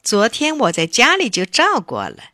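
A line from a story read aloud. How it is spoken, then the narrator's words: Laughing. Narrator (Chinese): 婷婷笑着说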